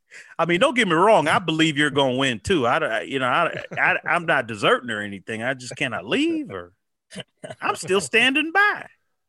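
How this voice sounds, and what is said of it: Imitates a Proud Boys member's voice. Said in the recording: “You're doing that voice pretty well... Been working on your Proud Boys”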